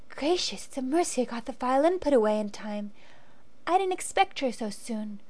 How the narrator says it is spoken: whispered the girl

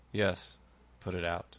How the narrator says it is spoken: he said at last in a hollow tone

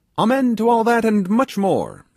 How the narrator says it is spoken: shouted Toby

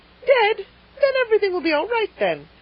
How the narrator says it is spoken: cried the rosy lady jubilantly

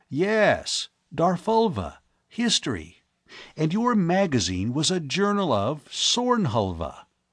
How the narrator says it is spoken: Penrose exclaimed

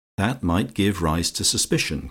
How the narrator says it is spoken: continued Lucia calmly

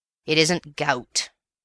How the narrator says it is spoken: said the Major gruffly

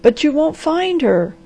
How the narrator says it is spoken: gasped the doctor

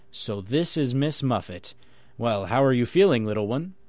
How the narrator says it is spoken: Muffet, when he met his little daughter, would gravely say

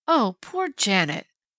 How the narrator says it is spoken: Penny groaned

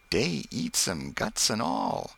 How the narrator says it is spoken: a remembered voice murmur

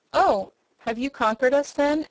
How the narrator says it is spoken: asked the captain of the guards in a surprised tone

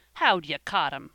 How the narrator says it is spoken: asked Van, scornfully

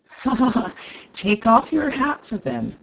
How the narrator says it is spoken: said the latter, laughing

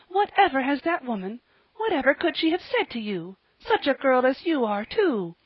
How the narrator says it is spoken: cried Mrs

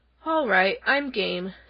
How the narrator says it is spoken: said the lion, yawning again

